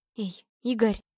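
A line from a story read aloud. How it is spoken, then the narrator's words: Slightly hoarse voice. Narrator (Russian): уже немного охрипшим голосом проговорила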